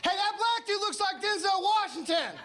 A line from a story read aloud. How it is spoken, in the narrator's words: as a white dude, I just can't start yelling out